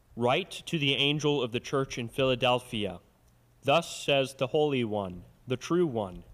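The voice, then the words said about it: Smooth radio-style reading voice. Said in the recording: “You got a nice radio voice when you read”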